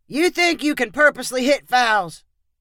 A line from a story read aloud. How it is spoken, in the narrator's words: called out